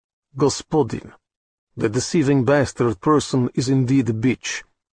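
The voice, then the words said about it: Thick put-on Russian accent. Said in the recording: “With a Russian accent as rich as beluga caviar”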